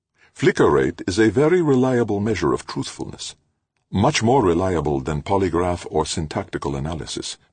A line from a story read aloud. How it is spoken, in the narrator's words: said Luongo